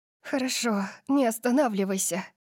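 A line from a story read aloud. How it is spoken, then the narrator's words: Breathless, laughing. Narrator (Russian): выдохнула я, и пьянящий смех вырвался из моих легких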